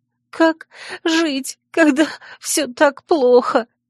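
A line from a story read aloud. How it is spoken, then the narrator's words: Sobbing question. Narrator (Russian): всхлипывая, вопрошала Лиля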